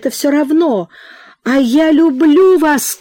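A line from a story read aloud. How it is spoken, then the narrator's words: Shouting. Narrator (Russian): крикнул он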